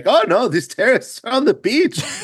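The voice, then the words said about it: Exaggerated bad German accent. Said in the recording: “That's a horrible German accent, but I'm going to lean into it.”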